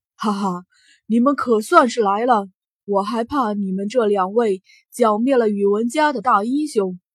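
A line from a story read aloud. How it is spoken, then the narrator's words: Laughing, clear ringing voice. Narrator (Chinese): 城隍笑出了声来，清朗的声音传遍整个大厅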